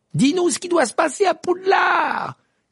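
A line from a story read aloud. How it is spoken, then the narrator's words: Shouting from window. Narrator (French): cria Fred à la fenêtre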